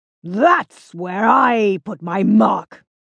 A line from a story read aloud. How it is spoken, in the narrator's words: said Ozzy, his roar triumphant